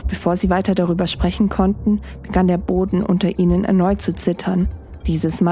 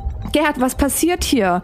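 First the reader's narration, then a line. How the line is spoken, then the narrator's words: Shouting. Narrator (German): schrie Ingrid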